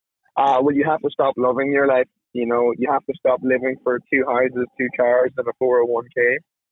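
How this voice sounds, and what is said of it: Irish accent. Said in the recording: “know that accent. He's not from North Mississippi. He is from Ireland.”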